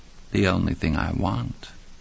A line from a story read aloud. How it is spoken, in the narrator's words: Rand said in a faint, faraway voice like the wind